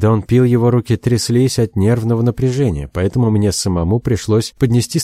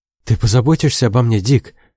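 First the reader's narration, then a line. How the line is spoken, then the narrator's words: Frightened whisper. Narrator (Russian): прошептал он, испуганно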